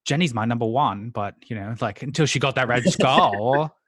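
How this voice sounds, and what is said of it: Abridged Australian accent impression. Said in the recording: “That's a good Dee. ... It's like a abridged Australian accent.”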